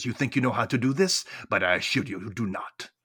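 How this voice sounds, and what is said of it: Weak attempt at Mayakovsky's accent. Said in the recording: “I'm trying to do his accent. I'm not really good at it.”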